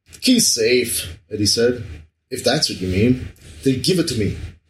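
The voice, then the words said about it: Put-on Spanish accent. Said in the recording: “I shouldn't be saying this in, like, Spanish accent”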